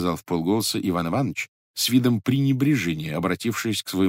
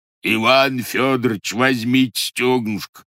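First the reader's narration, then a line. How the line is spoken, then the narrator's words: Roaring. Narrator (Russian): проревел официант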